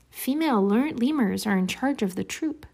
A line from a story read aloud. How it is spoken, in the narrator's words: his eyes grew sort of dazed for an instant, and he murmured